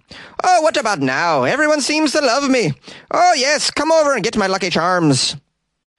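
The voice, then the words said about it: Put-on Irish accent. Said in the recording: “pretending to be an Irishman ... I'm not getting anywhere with this accent. ... I'm a real Irishman.”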